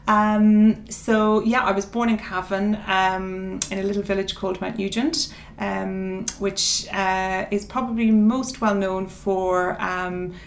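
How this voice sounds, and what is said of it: Irish accent from Cavan. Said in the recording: “that's not an English accent. you're from Cavan”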